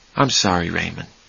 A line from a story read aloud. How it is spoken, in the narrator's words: Charlie said softly